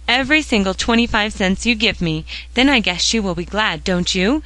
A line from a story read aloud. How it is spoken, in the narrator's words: she cried, in sudden rapture